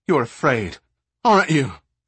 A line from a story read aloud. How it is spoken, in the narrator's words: Shay sputtered angrily